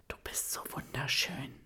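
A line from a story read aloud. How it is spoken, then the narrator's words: Whisper. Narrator (German): flüstert Ben ihr zu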